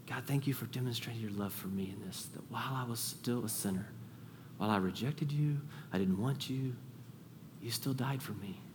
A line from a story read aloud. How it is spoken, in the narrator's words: quiet utter, that quiet murmur, that quiet whisper